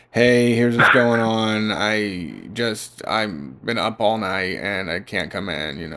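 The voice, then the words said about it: Low-energy creaky voice. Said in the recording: “Just a little low energy. Not a full voice ... I'm starting to do a creaky voice.”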